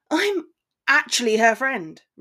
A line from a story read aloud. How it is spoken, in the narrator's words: Ron spat